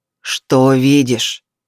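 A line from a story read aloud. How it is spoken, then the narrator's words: Growled into ear. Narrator (Russian): прорычал он ей на ухо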